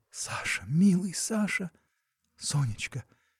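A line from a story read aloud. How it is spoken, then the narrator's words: Whispered. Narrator (Russian): шептали они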